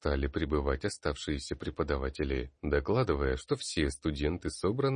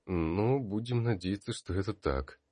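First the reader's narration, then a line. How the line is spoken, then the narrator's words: Grumbling under breath. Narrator (Russian): пробурчал вполголоса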